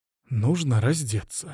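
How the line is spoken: Abbess whispering. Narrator (Russian): шепнула настоятельница

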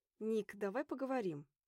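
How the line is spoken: Through gritted teeth. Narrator (Russian): Сквозь зубы

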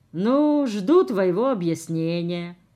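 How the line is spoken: Glum repetition. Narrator (Russian): уныло повторила

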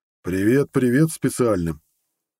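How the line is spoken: Deep booming voice. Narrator (Russian): пробасил он с порога

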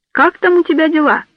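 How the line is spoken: Loud question. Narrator (Russian): спросил громко

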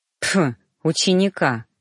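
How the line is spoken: Snorted. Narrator (Russian): фыркнул

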